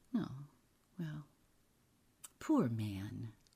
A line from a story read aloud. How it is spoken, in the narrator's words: murmured